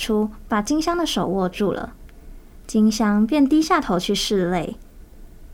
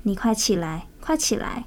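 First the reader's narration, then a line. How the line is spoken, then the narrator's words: Soft voice. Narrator (Chinese): 金香轻声说道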